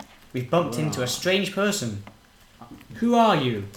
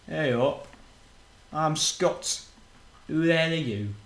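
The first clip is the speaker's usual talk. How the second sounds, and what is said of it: Put-on Yorkshire accent. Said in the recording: “The strange person replies in a sort of... a Yorkshire accent?”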